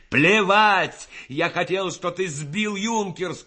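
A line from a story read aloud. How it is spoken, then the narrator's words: Shout. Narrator (Russian): крикнул Рассохин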